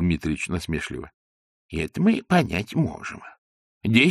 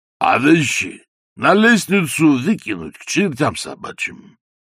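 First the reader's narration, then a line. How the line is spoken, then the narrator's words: Deep chest-voice exclamation. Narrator (Russian): грудным голосом воскликнул бывший князь, а ныне трудящийся Востока, гражданин Гигиенишвили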